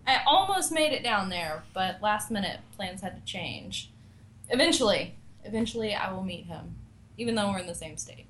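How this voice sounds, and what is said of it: Mild Southern American accent. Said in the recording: “Your southern accent actually isn't that bad. I've heard a lot worse.”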